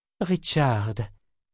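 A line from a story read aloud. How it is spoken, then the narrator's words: Soothing, as to a child. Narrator (French): dit Nietzsche d'un ton apaisant comme si elle parlait à un enfant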